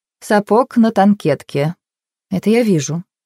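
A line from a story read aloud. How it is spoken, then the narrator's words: Calm, hiding nervousness. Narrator (Russian): спокойно отозвалась Джейн, хотя ее сердце снова забилось чаще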